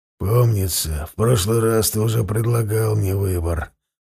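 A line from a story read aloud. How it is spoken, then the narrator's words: Hoarse rasp. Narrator (Russian): прохрипел он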